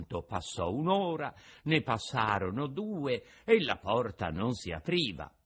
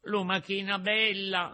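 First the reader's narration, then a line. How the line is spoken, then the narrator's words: Shouted from the street. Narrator (Italian): gridò Pinocchio dalla strada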